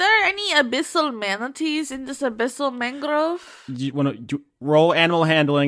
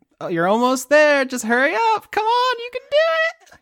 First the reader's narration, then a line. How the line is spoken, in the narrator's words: She's just giggling like